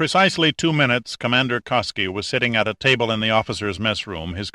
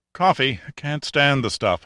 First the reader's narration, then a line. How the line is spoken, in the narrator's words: Honeywell said mournfully